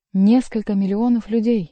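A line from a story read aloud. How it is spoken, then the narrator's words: Surprised, almost frightened exclamation. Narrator (Russian): воскликнул Генрих, даже не пытаясь скрыть своего удивления, которое с полным основанием можно было бы принять за испуг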